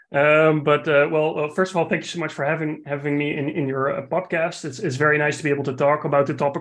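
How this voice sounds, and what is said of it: Dutch accent. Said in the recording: “another non-North American accent because I'm from the Netherlands”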